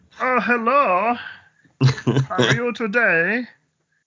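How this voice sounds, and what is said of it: Imitates a cartoon character's voice. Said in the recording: “doing his voice ... that's a really good impression”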